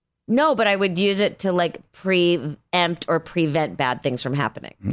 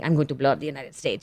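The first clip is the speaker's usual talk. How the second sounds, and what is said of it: Put-on Korean accent. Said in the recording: “Was that your Korean accent?”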